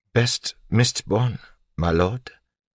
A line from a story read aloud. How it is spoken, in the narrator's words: Sazed asked quietly